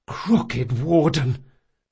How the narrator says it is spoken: Locke gasped

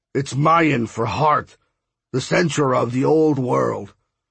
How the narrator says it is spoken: Jazz said with his booming voice

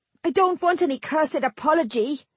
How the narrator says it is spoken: Jill snarled

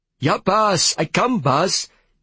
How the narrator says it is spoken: he cried

